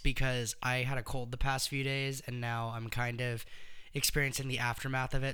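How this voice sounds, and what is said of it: Hoarse, raspy voice that cuts out. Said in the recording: “my voice sounds a little bit like it might cut out a little bit ... So I sound like I've been like chain smoking for 20 years. ... if my voice sounds like it cuts out during a word”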